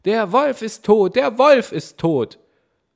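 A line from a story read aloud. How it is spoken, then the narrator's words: Loud shouting, young goats. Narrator (German): die sieben Geißlein riefen laut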